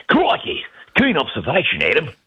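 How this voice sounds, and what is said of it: Put-on Australian accent. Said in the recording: “Can we hear that accent? ... That's actually not bad. ... that's pretty good. ... I tried to do a little Steve Irwin.”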